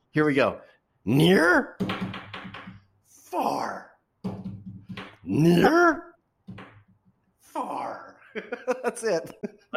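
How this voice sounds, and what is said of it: Imitates Grover Muppet voice. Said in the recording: “my Grover imitation”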